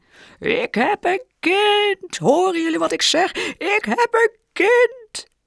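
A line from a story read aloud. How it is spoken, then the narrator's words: Booming shout. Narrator (Dutch): riep hij met bulderende stem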